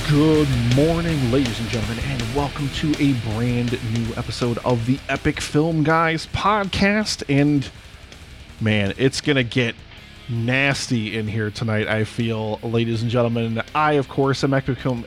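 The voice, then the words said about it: Odd, unplaceable put-on accent. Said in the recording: “I don't know what country you're from, or what you're attempting to do with your accent there.”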